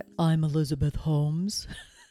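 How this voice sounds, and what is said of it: Forced deep-voiced Elizabeth Holmes impression. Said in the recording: “She had this very deep, deep voice... let me see if I can do it... this deep voice and almost sounded like it wasn't authentic. Like it was forced... faked her deep voice”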